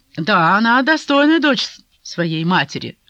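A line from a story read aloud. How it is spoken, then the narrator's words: Wry snort. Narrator (Russian): хмыкнул Кейта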